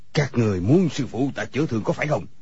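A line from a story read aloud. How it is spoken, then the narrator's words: Shout. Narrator (Vietnamese): người câu cá liền quát lên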